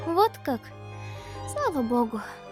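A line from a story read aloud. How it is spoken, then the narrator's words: Breathless exhale. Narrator (Russian): выдохнула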